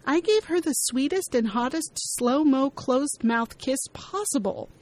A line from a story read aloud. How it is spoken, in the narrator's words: Kelly scoffs